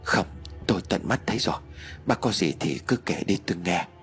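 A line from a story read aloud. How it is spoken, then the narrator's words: Trembling reply. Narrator (Vietnamese): Mạnh run rẩy rồi đáp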